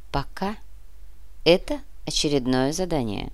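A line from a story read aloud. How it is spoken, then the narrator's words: Calm. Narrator (Russian): спокойно ответил комиссар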